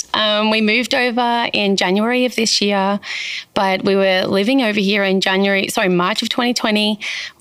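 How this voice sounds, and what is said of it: Australian accent. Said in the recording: “there is an accent. I'm yes. Australian.”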